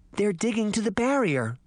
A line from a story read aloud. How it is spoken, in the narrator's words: Snow White gasped